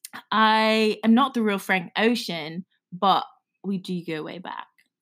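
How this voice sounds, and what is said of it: Put-on British accent. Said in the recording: “speaks in a British accent ... Uh-oh, you lost your accent.”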